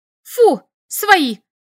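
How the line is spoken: Agitated shout. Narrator (Russian): крикнула я, в волнении

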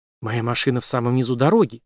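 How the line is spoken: Whisper. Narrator (Russian): шепнула

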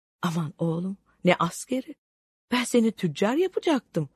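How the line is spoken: Pleading. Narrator (Turkish): diye yalvarmaya başladıysa da

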